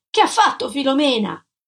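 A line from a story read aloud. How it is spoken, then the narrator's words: Shouted. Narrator (Italian): gridai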